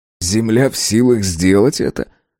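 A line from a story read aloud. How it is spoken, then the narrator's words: Suppressed laughter. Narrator (Russian): Авардан подавил желание рассмеяться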